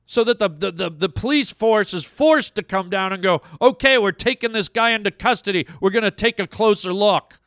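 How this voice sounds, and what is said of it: Angry, agitated voice. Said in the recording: “I'm angry. You can hear it in my voice. I'm pissed, man.”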